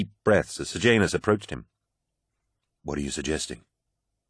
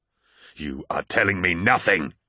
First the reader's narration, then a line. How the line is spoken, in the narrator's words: roared Horus